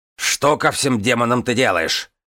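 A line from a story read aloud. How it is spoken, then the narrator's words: Barked. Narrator (Russian): рявкнул офицер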